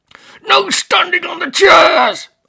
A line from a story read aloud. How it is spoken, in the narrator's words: an unseen voice bellowed via an amplified closed-circuit speaker system